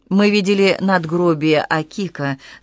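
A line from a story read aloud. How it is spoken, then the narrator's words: Plain. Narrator (Russian): сказал он Кикука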